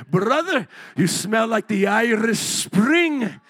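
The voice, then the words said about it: Sudden put-on accent. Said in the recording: “I don't even know where my accent's coming from.”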